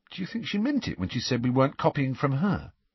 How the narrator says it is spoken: he added, in a slightly more anxious tone

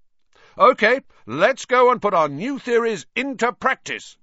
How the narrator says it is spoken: Wood shouted

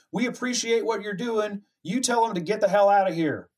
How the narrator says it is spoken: Ryder yells

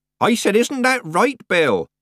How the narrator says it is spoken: Nanny repeated, raising her voice

